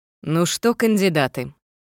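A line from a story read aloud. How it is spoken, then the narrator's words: Solemn proclamation. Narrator (Russian): провозгласил немного торжественно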